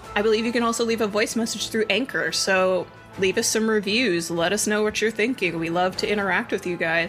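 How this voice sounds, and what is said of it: Congested, stuffed-up voice. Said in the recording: “my the roof of my mouth hurts because I have allergies ... If I sound a little stuffed up, that's what's happening today.”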